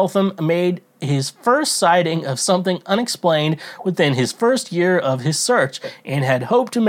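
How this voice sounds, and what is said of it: Usual voice. Nothing is said of it.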